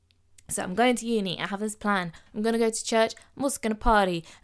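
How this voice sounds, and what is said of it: English Midlands accent. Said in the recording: “I'm not from London. I'm not from down south. I'm a Midlands girl. So I'm going to speak with my accent.”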